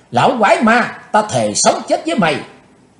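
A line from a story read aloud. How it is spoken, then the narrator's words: Furious young woman shouting. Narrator (Vietnamese): Tức giận bốc lên đầy mặt, thiếu nữ áo đen hét to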